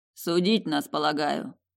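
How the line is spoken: Deliberately lazy reply. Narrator (Russian): нарочито лениво ответил он мне вслух

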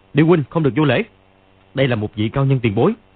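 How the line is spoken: Shout. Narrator (Vietnamese): Dương Quá quát lên

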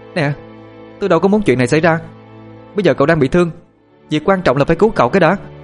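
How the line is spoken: Irritated shout. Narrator (Vietnamese): Tôi bực tức hét vào mặt cô ta

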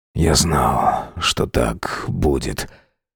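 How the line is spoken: Hoarse. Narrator (Russian): хрипло проговорил он

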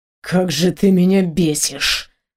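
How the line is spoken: Angry hiss. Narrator (Russian): прошипел Антуан

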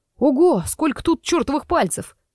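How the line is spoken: Surprised exclamation. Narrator (Russian): удивленно воскликнул Сеня

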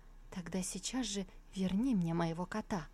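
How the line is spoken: Quiet stubborn reply. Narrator (Russian): Джан Юаньбай упрямо тихо ответил

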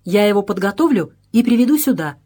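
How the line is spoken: Joyful. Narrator (Russian): радостно сказал Вагнер

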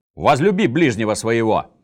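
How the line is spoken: Barking. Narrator (Russian): рявкнул он

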